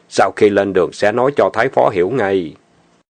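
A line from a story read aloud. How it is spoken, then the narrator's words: Lowered voice. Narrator (Vietnamese): Lý Tư hạ giọng nói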